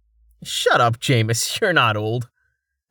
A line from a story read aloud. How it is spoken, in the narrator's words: Rain scoffed